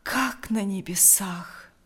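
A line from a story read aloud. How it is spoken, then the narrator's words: Breathed out. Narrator (Russian): выдохнул Лукьян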